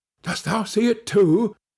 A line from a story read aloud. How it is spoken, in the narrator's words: said his companion in a startled tone